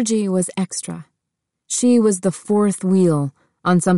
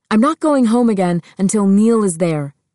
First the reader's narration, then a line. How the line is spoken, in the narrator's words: Georgie yelled back, realizing for the first time that it was true